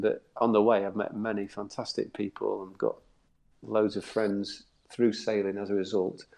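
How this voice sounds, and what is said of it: South Yorkshire English accent. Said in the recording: “As you can tell from my accent, I'm not from down the south. I'm from Doncaster, in South Yorkshire”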